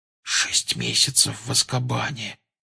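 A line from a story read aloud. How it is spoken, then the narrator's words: Shocked whisper. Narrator (Russian): прошептал потрясенный Гарри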